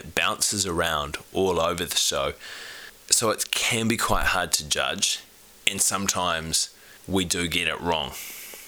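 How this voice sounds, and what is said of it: Sick-sounding voice. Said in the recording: “my voice sounds a little bit different today than what it usually does. I've been sick over the last week just with a virus”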